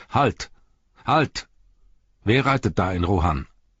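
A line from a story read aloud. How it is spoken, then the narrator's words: Loud call. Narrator (German): rief Eomer mit lauter Stimme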